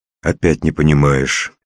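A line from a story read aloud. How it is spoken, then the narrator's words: Completely calm. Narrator (Russian): совершенно спокойно сказал Максютов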